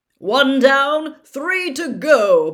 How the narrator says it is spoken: Bagman yelled

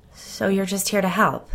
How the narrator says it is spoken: she asked, her voice shaking

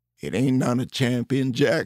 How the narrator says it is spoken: chuckled

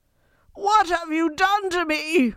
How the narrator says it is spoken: Roger rasped, clawing frantically at his eyes

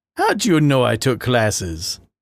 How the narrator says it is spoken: Adrian started with a chuckle

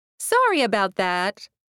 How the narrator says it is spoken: she chirped

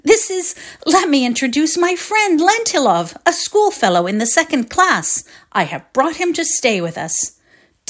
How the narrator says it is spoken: cried Volodya

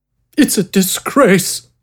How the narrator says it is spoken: the robed man sobbed

